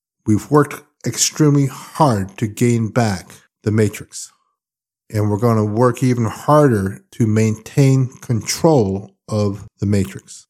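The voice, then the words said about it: Exhausted, tired-sounding voice. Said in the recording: “you can tell by my voice, I am completely, completely exhausted”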